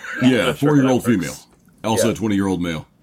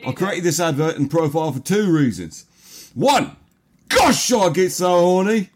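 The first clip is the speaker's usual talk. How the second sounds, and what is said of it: Put-on accent. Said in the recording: “the accent we all want to do”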